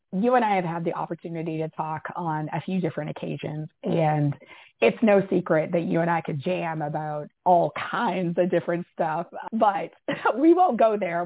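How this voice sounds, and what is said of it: Hoarse, strained, fading voice. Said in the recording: “I'm a little bit losing my voice today”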